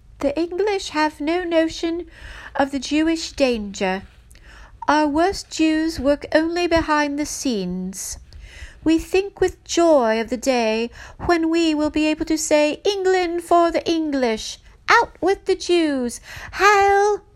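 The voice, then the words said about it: Deliberately bad English accent. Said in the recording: “I'll do my bad English accent.”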